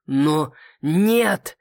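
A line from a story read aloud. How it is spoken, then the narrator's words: Angry growl. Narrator (Russian): рыкнул его высочество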